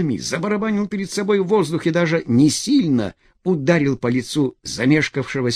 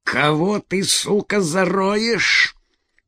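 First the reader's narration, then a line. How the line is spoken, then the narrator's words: Through clenched teeth. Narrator (Russian): процедил ПП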